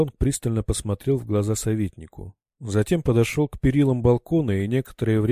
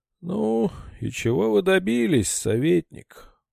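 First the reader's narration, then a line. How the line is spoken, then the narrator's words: Weary question. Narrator (Russian): устало поинтересовался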